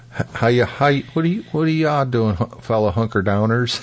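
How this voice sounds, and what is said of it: Imitated southern accent. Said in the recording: “he's got that southern accent”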